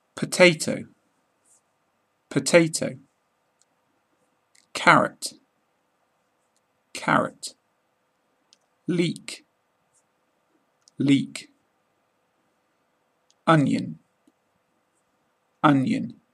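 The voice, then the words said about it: British accent. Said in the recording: “pronouncing them in a British accent”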